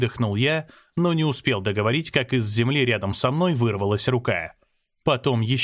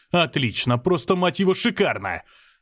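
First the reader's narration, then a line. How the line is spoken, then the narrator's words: Angry yell. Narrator (Russian): заорал я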